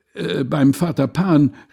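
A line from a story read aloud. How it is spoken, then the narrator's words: Crowd of all ages shouting. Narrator (German): rief Groß und Klein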